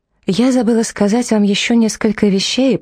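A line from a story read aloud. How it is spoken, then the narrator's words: Cheerful carefree voice. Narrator (Russian): продолжала Кони веселым и беззаботным голосом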